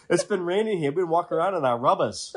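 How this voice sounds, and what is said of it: Maine accent. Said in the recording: “I'm from Maine originally. It doesn't take much for the accent to come back.”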